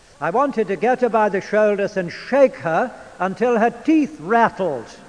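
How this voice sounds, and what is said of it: British English accent. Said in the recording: “Oh, I do like your English accent ... I speak the Queen's English.”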